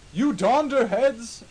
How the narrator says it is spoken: screamed Dumbledore wisely

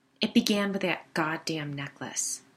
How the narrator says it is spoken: she spat

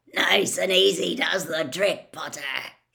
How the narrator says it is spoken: he growled

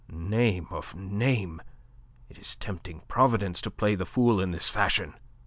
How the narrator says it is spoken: Le Chapelier swore softly, muttering

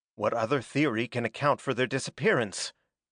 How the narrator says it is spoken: asked Norman calmly

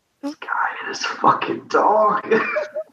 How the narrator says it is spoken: Malkop falls over, whispering

